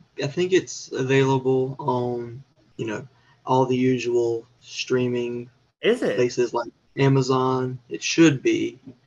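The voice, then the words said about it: Southern US accent. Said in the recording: “are you Southern? ... I noticed an accent, my friend ... I heard you speak, and I'm like, this boy Southern. For sure.”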